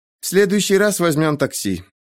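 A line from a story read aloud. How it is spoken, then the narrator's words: Embarrassed breathy exhale. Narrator (Russian): смущенно улыбнувшись, выдохнула Сейхан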